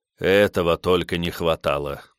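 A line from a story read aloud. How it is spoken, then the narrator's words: Annoyed muttering. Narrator (Russian): досадливо пробормотал Бенвенуто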